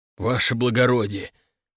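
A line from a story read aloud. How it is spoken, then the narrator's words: Mumble. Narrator (Russian): пробормотал он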